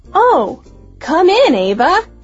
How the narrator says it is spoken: she exclaimed happily

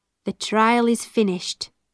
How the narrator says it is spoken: said

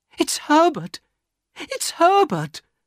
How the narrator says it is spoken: she cried

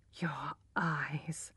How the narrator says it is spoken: whispered Alec

